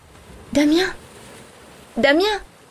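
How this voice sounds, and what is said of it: Whispered voice. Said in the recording (French): “d'une voix chuchotée”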